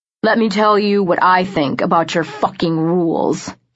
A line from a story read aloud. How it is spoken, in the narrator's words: he said, his voice dripping with venom